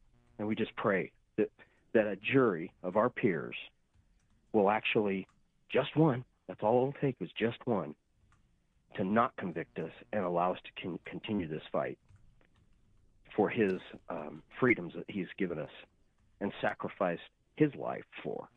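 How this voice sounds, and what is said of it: Emotional, voice charged with feeling. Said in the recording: “a little emotional there”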